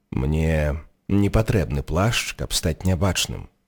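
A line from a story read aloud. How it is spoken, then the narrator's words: Soft. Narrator (Belarusian): мякка сказаў Дамблдар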